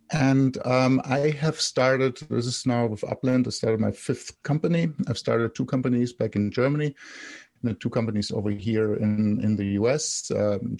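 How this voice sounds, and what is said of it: German accent. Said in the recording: “I'm German, so my accent just will not go away.”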